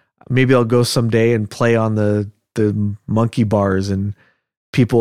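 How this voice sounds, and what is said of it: Usual voice. Nothing is said of it.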